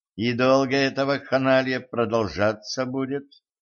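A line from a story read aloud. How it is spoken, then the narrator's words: Gloomy question. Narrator (Russian): мрачно поинтересовалась Катран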